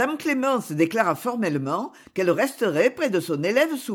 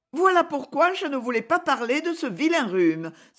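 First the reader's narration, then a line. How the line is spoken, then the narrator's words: Exclaiming. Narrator (French): s'écria-t-elle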